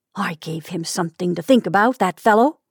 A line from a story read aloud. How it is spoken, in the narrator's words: he muttered to himself